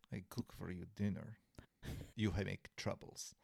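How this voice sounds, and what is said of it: Vague Eastern European accent, broken English. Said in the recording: “imagine that in like broken English with a Polish accent ... I don't even know what a Polish accent sounds like. So I did vaguely Eastern Europe.”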